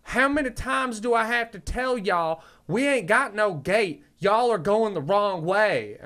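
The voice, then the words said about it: Exaggerated Southern accent. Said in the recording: “there's two types of Southern accent. There's the sexy Southern accent and the one where you sound like a fucking moron. And this lady was the latter”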